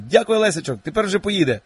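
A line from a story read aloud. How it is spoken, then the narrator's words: Shout. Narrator (Ukrainian): крикнув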